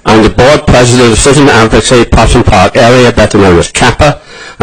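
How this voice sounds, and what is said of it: Foreign accent. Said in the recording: “Do not be confused by my accent. ... I'm what I call American by choice”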